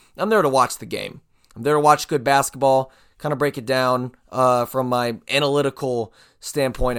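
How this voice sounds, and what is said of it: Strained, hoarse voice. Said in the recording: “My voice is a little shot because I was yelling a lot, cheering a lot”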